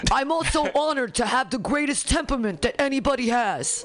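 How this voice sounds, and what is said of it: Good impression of another person's voice. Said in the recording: “That's a good impression.”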